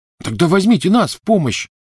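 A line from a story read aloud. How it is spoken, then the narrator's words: Angry shout. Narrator (Russian): сердито крикнул Невилл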